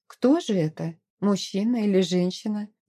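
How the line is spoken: Thoughtful question. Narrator (Russian): задумчиво спросила она

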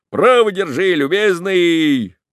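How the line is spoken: Excited shout. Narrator (Russian): Он закричал, сам весь возбужденный веселым летом

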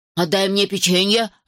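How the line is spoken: Growling. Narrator (Russian): рычал Джин

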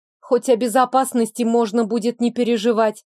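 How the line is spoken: Scoffing snort. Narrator (Russian): Сирейли хмыкнул

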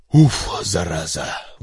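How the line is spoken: Relieved exhale after strain. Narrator (Russian): выдохнул Захария, отделавшись, наконец, от тяжелых чемоданов

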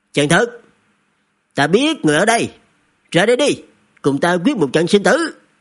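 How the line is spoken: Loud shout. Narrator (Vietnamese): Vệ Nhạc lớn tiếng quát

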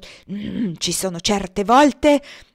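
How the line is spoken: Deliberately loud exclamation. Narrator (Italian): esclamò con voce deliberatamente alta

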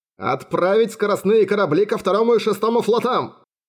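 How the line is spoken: Admiral bellowing at full volume. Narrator (Russian): заорал адмирал во всю силу легких

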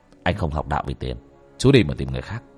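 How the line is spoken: Stern voice. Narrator (Vietnamese): bác cổ nghiêm giọng

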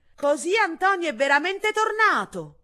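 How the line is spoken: Shouting. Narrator (Italian): gridò

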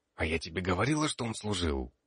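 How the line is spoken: Unknown whisper. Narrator (Russian): чей-то шепот

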